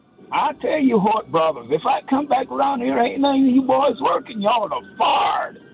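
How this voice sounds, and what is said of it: Exaggerated movie-style Southern accent. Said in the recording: “Southern accent ... that's an accent you don't hear much except in the movies”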